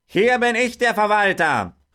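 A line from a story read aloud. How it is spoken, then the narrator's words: Farmer shouting. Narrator (German): rief der Bauer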